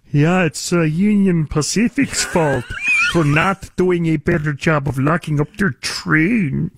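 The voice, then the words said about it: Imitates another person's voice. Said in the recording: “That's a pretty good, what the hell is that accent, George Gascon impersonation? ... That was a pretty good George Gascon impersonation”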